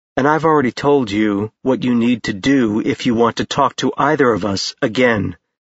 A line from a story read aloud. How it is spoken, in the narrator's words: Ash said flatly